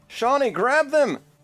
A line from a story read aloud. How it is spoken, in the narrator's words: just yells out